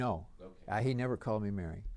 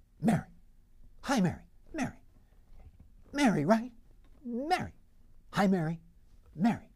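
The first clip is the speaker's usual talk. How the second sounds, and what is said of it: Imitates another person's voice. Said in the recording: “your best Skip impression”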